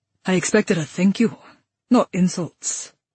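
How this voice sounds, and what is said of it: Rough male voice, Scottish accent. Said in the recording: “his rough voice tinged with a sexy Scottish accent”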